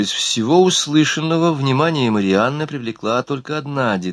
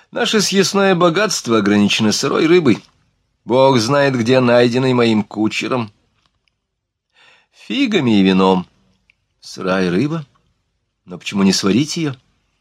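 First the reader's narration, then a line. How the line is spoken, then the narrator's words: Forced laugh. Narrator (Russian): Он принужденно рассмеялся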